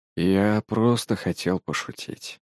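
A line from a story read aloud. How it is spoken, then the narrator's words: Quiet. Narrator (Russian): произнес Илья тихо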